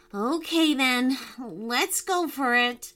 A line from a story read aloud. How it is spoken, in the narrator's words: said Andrew in a slightly nervous voice